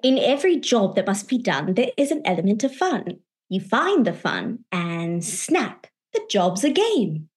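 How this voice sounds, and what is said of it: Rusty put-on Mary Poppins accent. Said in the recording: “a accent. It's so rusty and it wasn't good to begin with.”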